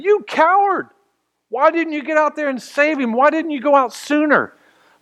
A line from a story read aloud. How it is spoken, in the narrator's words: they're screaming at him